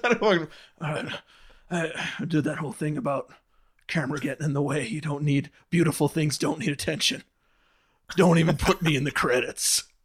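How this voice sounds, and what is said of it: Imitates another person's voice. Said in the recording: “Try to do my Sean Penn impression.”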